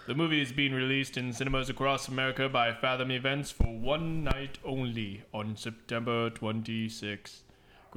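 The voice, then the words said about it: Spooky news-narrator accent. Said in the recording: “What's with the accent? ... That's a spooky accent. ... it's like the guy who narrates spooky news.”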